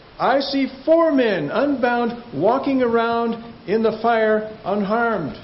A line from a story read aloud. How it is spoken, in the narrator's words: Nebuchadnezzar shouted